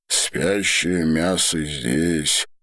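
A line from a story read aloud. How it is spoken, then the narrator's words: Deep bass voice. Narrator (Russian): пробасил Одо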